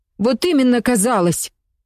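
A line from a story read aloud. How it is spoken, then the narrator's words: Angry shout. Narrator (Russian): зло крикнула Катя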